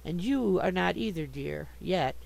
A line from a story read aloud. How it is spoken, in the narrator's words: said Jude